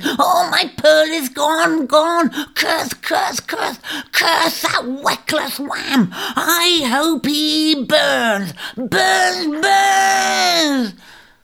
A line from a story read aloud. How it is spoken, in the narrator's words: The shrike was in a fury, wailing and shrieking